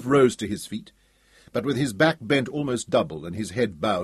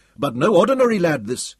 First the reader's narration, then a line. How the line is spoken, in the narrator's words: jabbered Yusuf nervously